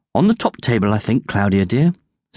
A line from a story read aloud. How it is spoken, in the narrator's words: said the Countess